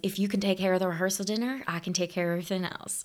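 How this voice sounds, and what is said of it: Put-on Southern American accent. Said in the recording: “I gave him a Southern accent.”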